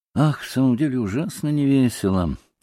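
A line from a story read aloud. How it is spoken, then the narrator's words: Lazy drawl. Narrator (Russian): лениво промолвил Колганов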